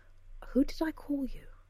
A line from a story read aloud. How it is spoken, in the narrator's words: Emery sighed